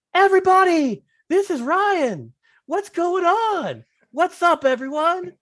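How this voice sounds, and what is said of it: Imitates another person's hyped-up podcast voice. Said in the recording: “Ryan's podcast voice is hilarious ... that's not his real voice”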